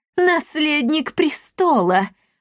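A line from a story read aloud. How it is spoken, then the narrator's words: Spiteful laughter. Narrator (Russian): злобно расхохоталась Лионелла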